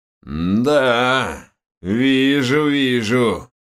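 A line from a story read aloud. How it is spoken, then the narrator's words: Creaky displeased voice behind. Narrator (Russian): проскрипел недовольный голос за моей спиной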